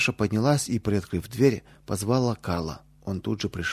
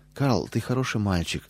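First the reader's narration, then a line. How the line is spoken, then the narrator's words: Gentle affectionate. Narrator (Russian): ласково сказала она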